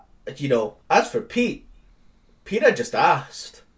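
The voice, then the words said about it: Pat McAfee wrestler promo voice impression. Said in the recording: “Please never do that accent again. ... that Pat McAfee. You did have an impression of Pat McAfee. ... I didn't like it. ... my generic wrestler doing a promo voice”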